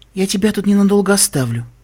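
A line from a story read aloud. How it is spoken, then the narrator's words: Soft cooing. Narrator (Russian): мягко проворковала Вельвет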